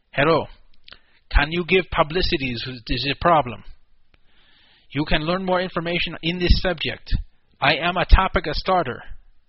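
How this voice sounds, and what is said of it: Put-on Russian accent. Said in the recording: “I'll try to do a Russian accent here. Probably won't be good. ... That's actually pretty good.”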